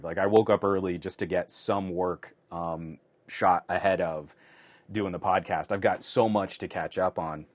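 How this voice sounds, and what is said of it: Slightly shaky, tired voice. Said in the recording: “My voice is already a little shaky because I shot two whole videos before we went live”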